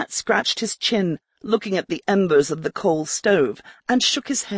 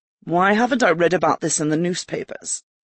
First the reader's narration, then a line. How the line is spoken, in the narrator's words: Ricard snorted